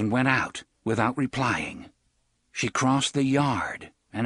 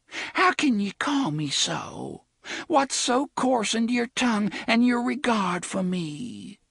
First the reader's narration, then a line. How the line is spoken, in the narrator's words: Cordelia said in a small, hurt voice